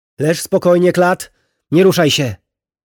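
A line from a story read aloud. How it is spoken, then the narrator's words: Called out. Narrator (Polish): zawołała Lilio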